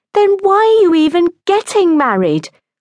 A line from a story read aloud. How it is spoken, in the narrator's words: cried her sister